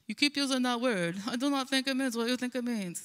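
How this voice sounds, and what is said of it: Poor Inigo Montoya accent impression. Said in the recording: “It's like that line from The Princess Bride where Inigo Montoya is like ... Sorry, I have a terrible accent.”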